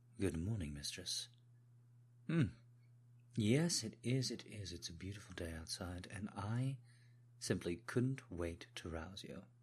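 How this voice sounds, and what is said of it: Put-on British accent. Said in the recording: “Do forgive the accent work, but people have asked me to try and put on a British accent.”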